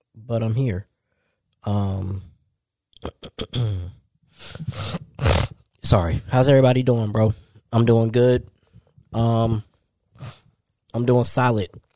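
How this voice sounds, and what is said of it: Sick-sounding voice. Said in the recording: “Just been trying to get over getting sick. I'm still sick. I don't know if y'all can hear it in my voice.”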